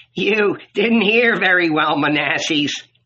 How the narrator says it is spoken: snapped a pale man

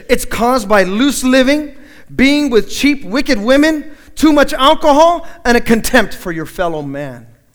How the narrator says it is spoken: The priest, disgusted by this man's appearance and his behavior, he snapped at him and said

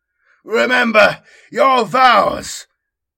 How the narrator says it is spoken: he cries again

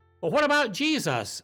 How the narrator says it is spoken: Pilate shouted back at them

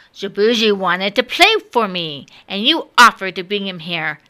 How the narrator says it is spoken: said the King of Heaven sternly

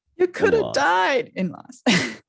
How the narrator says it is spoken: sobbed Hagrid

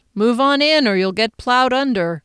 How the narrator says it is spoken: Calvin said with a chuckle

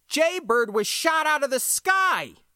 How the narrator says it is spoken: shouted, because it felt like they were ganging up

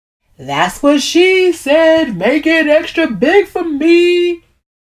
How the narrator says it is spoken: Rodney shouts, roaring with laughter at his own joke

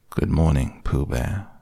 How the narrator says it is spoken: said Eeyore gloomily

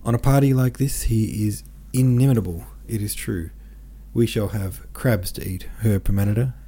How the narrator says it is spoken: said in a livelier tone

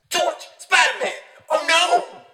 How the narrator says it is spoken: The beetle shouts

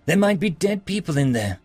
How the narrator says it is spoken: she whined

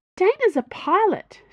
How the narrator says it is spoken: she said brightly

